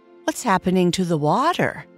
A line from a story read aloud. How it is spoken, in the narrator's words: Winky asked, a note of concern in his bubbly voice